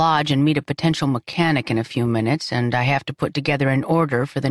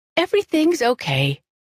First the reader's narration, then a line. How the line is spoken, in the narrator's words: she said too brightly